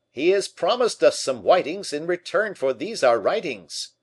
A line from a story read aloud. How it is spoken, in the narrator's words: La Fontaine opened the door and shouted out